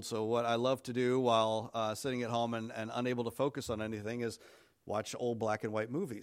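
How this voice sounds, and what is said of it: Congested, sick-sounding voice. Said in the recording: “as you can hear from my voice, I'm recovering from a cold.”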